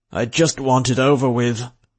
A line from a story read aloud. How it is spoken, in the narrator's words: Oglethorpe groaned from the back seat